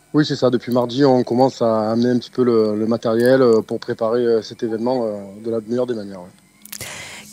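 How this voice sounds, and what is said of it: Slight Southern French accent. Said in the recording (French): “vous avez un petit accent du Sud”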